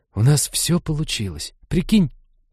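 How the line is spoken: Excited conspiratorial whisper. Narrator (Russian): Таким восторженно заговорщическим тоном прошептала Лиза

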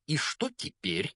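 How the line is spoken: Spiteful, hateful. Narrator (Russian): злобно спросила тетя Петунья, с ненавистью

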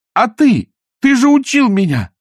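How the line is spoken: Desperate shout. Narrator (Russian): в отчаянии закричала она

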